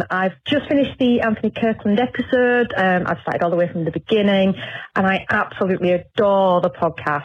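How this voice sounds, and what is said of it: Northern Yorkshire English accent. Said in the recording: “I would give you an insight into a northern Yorkshire accent ... Really like that Northern Yorkshire accent.”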